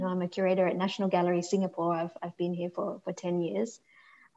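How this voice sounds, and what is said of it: Australian accent. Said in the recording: “as you can probably tell from my voice, I'm also originally Australian.”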